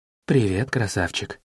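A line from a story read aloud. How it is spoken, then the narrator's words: Low-voiced woman. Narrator (Russian): спросила она низким голосом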